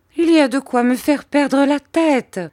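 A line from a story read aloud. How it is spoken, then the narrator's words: Mother exclaiming. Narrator (French): s'écria ma mère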